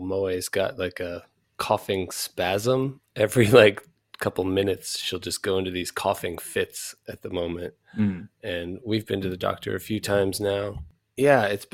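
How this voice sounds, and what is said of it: Sick, altered voice. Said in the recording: “I'm sure you can hear my voice is a little different right now, and I'm muting a lot as I cough all the time”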